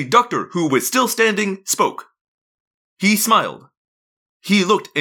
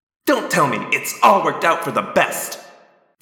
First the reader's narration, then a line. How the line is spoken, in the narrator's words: Visser 3 sneered